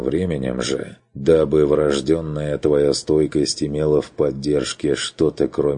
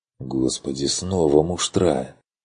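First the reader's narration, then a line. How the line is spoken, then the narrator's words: Muttered under breath. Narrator (Russian): Пробормотал Курт себе под нос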